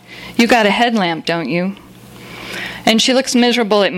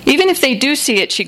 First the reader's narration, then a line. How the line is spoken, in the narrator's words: she grumbles